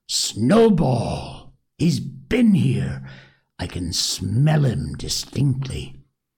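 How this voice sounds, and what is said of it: Terrible, fierce exclaiming voice. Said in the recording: “exclaim in a terrible voice,”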